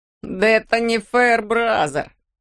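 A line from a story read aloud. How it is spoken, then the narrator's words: Short laugh. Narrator (Russian): хохотнул Пуп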